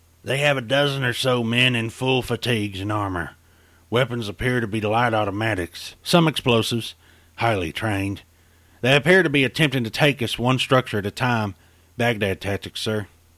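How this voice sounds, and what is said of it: Raspy West Texas voice. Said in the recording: “A raspy voice of West Texas origin”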